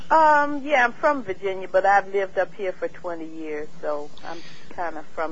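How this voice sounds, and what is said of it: Southern American accent. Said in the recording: “you have a southern accent.”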